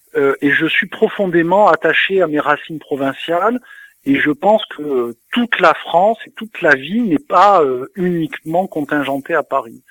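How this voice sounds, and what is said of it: Southern French Toulon accent. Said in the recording (French): “je suis né à Toulon, ça s'entend peut-être avec mon accent”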